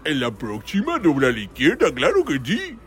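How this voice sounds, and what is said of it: Homer Simpson impression. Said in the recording (Spanish): “Es muy buena la imitación de Homero”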